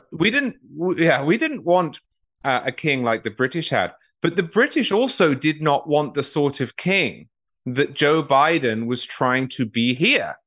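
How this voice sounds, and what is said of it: Non-American accent. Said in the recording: “I say we now as an American citizen, despite my accent.”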